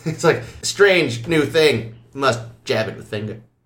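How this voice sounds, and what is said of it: Kirk impression. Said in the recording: “It's a good impression.”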